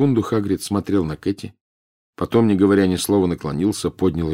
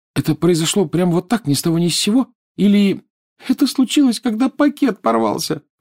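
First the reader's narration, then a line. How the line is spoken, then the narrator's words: Sobbing. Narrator (Russian): всхлипнула Лиана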